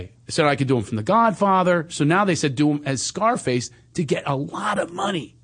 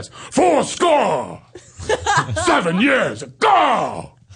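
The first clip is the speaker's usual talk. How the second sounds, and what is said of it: Deep shouting impression of an actor. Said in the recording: “I do an impression of him ... Because now he's got the deep voice. ... Hoo-ah! That's how he says everything now.”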